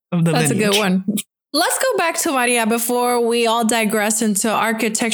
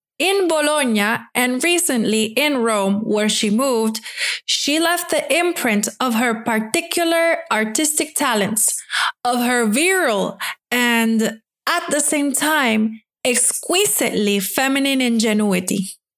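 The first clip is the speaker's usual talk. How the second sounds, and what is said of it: Put-on Italian accent. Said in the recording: “I'm going to give this a try, though I don't remember the accent anymore... It's Italian.”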